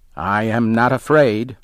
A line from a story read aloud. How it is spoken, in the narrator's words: he said